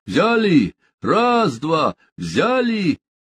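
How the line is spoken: Man's loud shout. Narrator (Russian): Тот мужчина, что стоял у лебедки, громко крикнул

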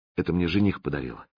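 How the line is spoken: Quiet. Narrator (Russian): тихо сказала она

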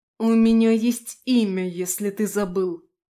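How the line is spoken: Growling reply. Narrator (Russian): зарычала в ответ

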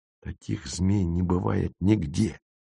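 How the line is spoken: Hissed. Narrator (Russian): прошипел Зырянов

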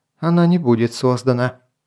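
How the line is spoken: Calm, lazy. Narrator (Russian): спокойно, даже как-то лениво проговорил рубиновый мечник Алярий

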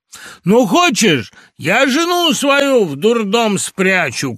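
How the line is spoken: Shout. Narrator (Russian): крикнул он ей

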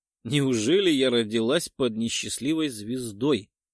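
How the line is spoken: Contemptuous laugh. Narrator (Russian): хохотнула презрительным смехом

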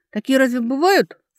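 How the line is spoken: Scoffing snort. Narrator (Russian): фыркнула Алекса

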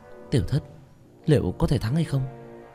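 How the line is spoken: Quiet, worried. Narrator (Vietnamese): nhỏ giọng

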